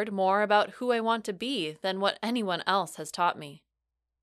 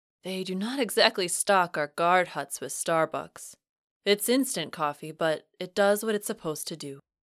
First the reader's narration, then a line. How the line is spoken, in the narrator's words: he chuckled and said